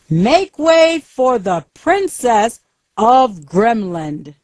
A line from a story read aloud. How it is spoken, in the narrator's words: Soldiers stopped in front of Andrew's shop and shouted loudly